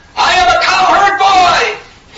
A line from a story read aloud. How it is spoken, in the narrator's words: some of them screamed out